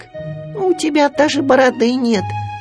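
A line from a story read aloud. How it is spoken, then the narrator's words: Squeak. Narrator (Russian): пискнул Ру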